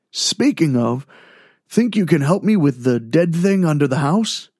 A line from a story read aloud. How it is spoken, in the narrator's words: Blake sighed